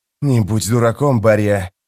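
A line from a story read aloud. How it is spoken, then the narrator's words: Hissing sorcerer. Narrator (Russian): прошипел чародей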